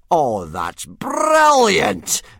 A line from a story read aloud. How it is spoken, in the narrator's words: bellowed Gobber